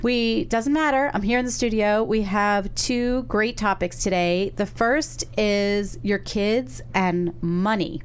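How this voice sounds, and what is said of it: Sick, weird-sounding voice. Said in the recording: “I am sick. That's why I sound like this... why I sound weird.”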